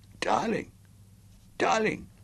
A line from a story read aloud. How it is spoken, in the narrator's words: she protested desperately